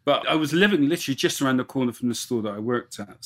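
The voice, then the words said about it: Bristol English accent. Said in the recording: “I'm originally from Bristol. That's where my accent's from.”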